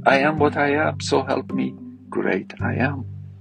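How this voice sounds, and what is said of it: Foreign accent in English. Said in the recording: “When I came to US, I was ashamed of the accent. Now I'm proud of it... accent is sexy”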